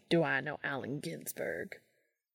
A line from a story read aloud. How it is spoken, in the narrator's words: He muttered into his beer